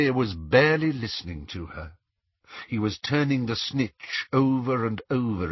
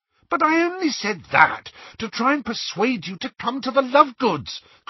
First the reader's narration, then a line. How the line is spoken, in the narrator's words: cried Hermione in exasperation